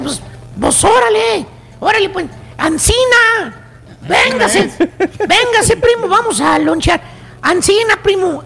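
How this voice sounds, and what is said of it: Put-on rural Mexican ranch accent. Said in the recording (Spanish): “El chuntaro te habla con tonadita todavía del rancho ... no se Te quita el acento”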